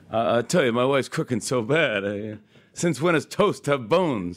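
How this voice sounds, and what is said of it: Rodney Dangerfield impression. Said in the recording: “I remember my parents like having me do Rodney Dangerfield... I would do an impression of him... they'd have me do Rodney... I'd do like three Rodney jokes”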